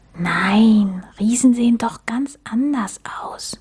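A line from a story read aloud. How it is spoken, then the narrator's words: Whisper. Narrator (German): flüsterte Max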